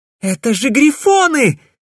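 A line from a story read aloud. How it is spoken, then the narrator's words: Terrified exclamation. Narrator (Russian): в ужасе воскликнула Селина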